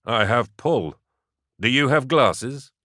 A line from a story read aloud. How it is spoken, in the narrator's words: Chuckling